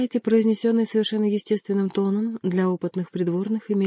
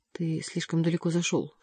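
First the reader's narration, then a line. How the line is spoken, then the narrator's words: Whispered in ear. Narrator (Russian): шепнул ему на ухо Леваро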